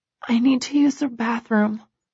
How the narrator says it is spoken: I whisper

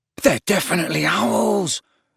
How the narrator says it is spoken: said Ron hoarsely

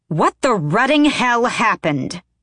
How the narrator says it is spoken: Aelin roared

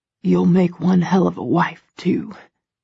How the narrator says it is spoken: he whispers, his voice hoarse

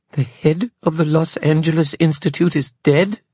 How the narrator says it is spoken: Evelyn exclaimed

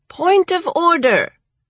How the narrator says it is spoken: Various other birds piped up, saying

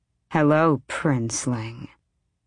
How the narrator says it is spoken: she said, her voice bedroom soft and full of glorious death

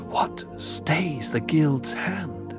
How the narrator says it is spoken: Jessica whispered

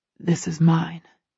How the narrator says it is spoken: he murmurs in my ear

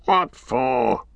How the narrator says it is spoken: growled Gorbag

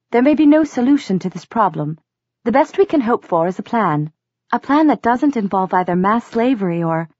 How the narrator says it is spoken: said Nazreen in her clipped accent

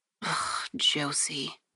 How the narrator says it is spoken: I muttered to myself

